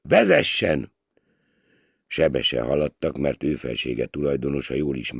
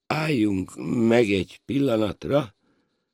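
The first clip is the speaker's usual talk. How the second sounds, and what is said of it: Feigned faint, fading voice. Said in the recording (Hungarian): “mondta színlelt elhaló hangon.”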